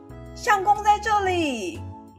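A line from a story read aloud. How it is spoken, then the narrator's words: Officials calling out. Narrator (Chinese): 两个穿紫衣、小官吏模样的人口中喊说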